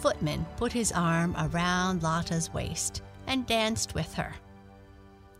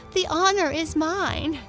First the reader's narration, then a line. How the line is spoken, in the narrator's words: laughed Lotta